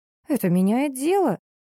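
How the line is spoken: Joyful exclamation. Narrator (Russian): радостно подскочила и счастливо воскликнула

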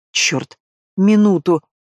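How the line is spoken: Pleading through clenched teeth. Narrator (Russian): умоляю сквозь зубы

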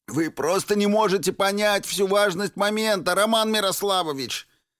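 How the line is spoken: Nearly shouting, ecstatic. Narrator (Russian): Нестор Барабанов почти что кричал, находясь в полной экзальтации

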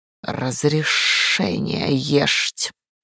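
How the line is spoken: Hissing cat voice. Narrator (Russian): в кошачьем шипении

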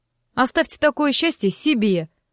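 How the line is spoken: Snapping back. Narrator (Russian): огрызнулась я

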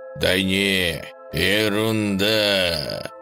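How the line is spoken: Eerie voice. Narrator (Russian): жутким голосом сообщил дружок

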